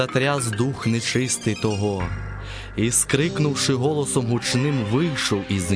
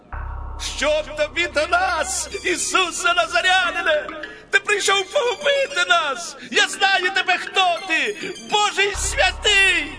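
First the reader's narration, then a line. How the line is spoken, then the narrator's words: Possessed man shouting. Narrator (Ukrainian): чоловік, що мав духа нечистого, і він закричав і сказав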